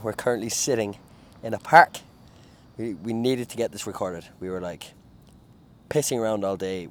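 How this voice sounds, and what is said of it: Irish accent. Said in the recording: “Irish accents coming out nice there ... followers enjoying your accent”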